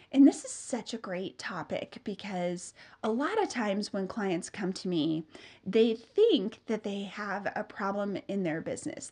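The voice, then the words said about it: Nasal, congested voice. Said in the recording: “I have a cold. So if I sound more nasally than usual, that is why.”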